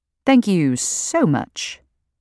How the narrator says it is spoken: I say dryly

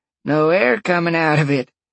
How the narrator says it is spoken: she chuckled

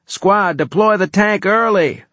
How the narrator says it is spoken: I shouted

